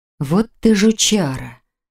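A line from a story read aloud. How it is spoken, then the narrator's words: Stunned breathless. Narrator (Russian): ошарашенно выдохнула Роза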